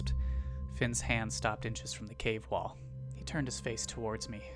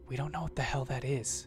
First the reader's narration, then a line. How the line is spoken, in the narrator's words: I whispered desperately